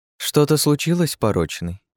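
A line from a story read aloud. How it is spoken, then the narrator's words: Sugary singsong. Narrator (Russian): пропела она сахарным голоском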